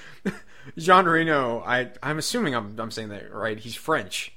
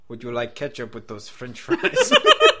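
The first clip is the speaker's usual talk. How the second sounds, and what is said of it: Bad put-on French accent. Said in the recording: “This is my French accent. ... Oh, terrible.”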